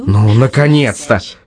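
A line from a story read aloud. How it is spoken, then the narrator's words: Happy sigh. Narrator (Russian): счастливо вздохнул Лёша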